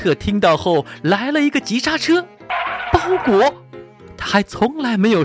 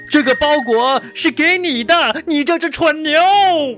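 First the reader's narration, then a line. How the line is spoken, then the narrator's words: Shouting postman. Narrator (Chinese): 邮递员也大喊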